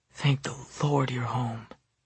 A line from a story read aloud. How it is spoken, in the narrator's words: whispering